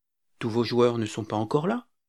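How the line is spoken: Timid answer. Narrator (French): répondis-je timidement

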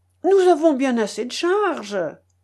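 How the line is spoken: Exclaiming. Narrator (French): s'écria le fermier

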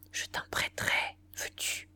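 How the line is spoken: Whispered in the ear. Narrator (French): Elle lui souffla dans l'oreille

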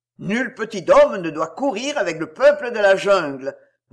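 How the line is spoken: Roared. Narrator (French): rugit Shere Khan

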